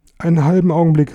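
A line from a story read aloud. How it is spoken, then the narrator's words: Anxious call. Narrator (German): rief, denn noch immer der peinliche Gedanke plagte, gefressen zu werden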